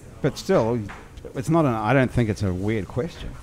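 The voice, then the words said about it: Very distinctive accent. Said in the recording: “you have a very distinctive accent”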